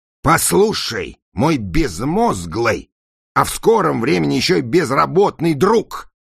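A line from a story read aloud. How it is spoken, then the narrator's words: Yelling. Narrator (Russian): заорал Пластик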